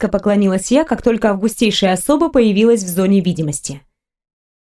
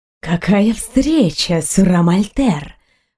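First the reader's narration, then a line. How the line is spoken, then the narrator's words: Drawled. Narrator (Russian): протянул принц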